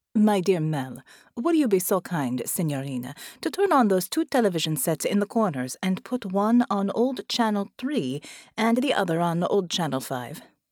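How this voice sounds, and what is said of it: Italian accent character voice. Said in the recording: “said a new voice with an Italian accent”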